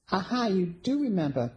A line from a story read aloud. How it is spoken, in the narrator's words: Penny exclaimed